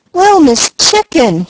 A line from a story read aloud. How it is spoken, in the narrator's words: he cried in despair